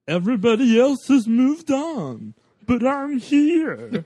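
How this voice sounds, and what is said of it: Sylvester Stallone impression, Muppet-like voice. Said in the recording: “my impression of the only reason Sylvester Stallone was nominated ... what are you doing, Urkel? ... I thought it was a Muppet. I was like, is that Ernie or Bert? ... that's Fozzie Bear”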